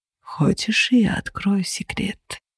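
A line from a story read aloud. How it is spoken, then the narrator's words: Tender whisper. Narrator (Russian): нежно прошептал Феникс, наклоняясь к моему уху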